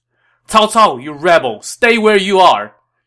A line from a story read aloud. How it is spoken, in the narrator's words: shouted as he attacked